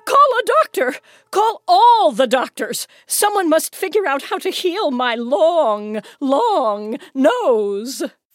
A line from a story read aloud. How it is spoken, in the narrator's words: Through the open windows of the Duchess's mansion, Luca could hear her shrieking